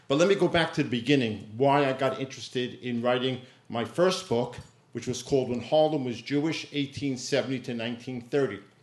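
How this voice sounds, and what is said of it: Distinctive New York accent. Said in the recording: “As you can hear already, I am a born and bred New Yorker. I have this distinctive New York dialect”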